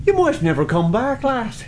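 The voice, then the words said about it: Put-on Irish accent. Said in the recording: “You might fall in love with an Irishman ... they do have the best accent in the world”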